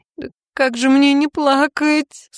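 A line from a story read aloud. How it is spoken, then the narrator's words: Howling through tears. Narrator (Russian): сквозь слезы вою я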